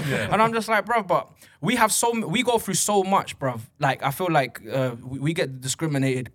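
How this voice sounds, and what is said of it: British accent. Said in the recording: “this guy's got a British accent”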